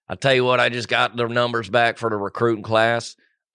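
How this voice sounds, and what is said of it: Impression of a sports-radio caller. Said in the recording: “Let me do an impression of a guy. I'm gonna call in.”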